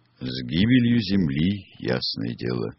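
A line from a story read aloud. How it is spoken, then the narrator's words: Calm explanation. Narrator (Russian): спокойно объяснил гость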